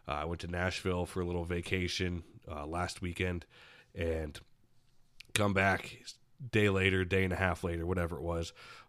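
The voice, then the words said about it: Sick, congested-sounding voice. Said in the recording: “I'm sure you could tell by my voice ... I've been under the weather a bit here the past few days ... I get hit like a freight train by this cold”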